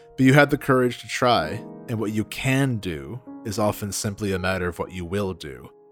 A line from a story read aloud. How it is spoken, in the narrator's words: said Reason gravely